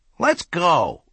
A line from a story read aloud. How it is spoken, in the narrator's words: he exclaimed all of a sudden